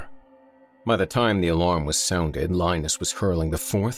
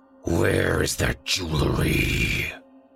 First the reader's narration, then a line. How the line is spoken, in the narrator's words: snarled